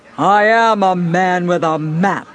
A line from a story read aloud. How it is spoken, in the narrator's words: boomed Little Jack